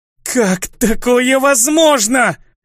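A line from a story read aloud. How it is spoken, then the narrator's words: Dying hiss. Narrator (Russian): донеслось предсмертное шипение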